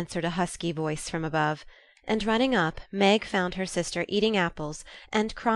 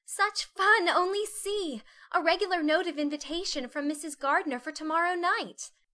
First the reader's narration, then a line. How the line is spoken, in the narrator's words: cried Meg, with girlish delight